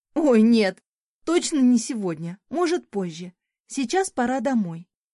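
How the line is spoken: Horrified exclamation. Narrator (Russian): воскликнула, с ужасом представив, как мы тащим еще и камни до лавки

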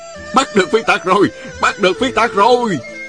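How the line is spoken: Cheering crowd. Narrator (Vietnamese): không ngớt reo hò

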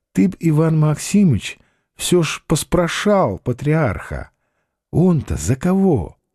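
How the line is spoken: Whispering. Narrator (Russian): прошептал Василий Васильевич

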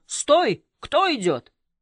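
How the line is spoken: Cadet shouting. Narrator (Russian): Курсант крикнул

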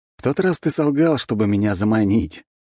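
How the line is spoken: Indifferent snort. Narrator (Russian): безразлично хмыкнул я

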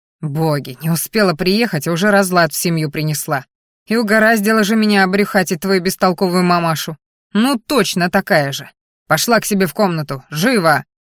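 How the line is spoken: Angry growl. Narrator (Russian): Рычал он злобно

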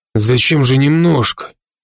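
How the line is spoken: Peaceful grumble. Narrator (Russian): умиротворенно проворчал Бро

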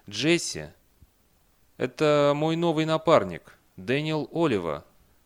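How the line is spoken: Uncertain speech. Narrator (Russian): Бейли неуверенно произнес

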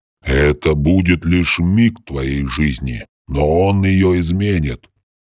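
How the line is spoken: Deep booming bass. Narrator (Russian): пробасил здоровяк

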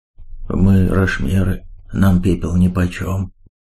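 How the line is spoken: Uncertain reply. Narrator (Russian): неуверенно ответил на это Бвонг

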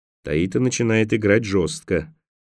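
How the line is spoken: Quiet. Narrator (Russian): негромко произнес Николас

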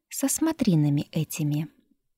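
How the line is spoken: Sweet smiling tone. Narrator (Russian): продолжила царица, улыбаясь столь ласково

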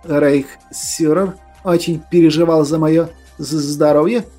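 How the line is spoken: Nervous stammering. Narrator (Russian): Майор даже заикаться начал от волнения

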